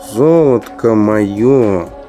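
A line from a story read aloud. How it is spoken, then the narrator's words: Tired. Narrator (Russian): устало сказал командор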